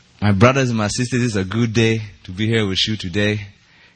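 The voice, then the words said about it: Fake, poor West African accent. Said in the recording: “I'm faking this accent ... that wasn't even an East African accent ... That was a very busted West African, maybe Nigerian accent”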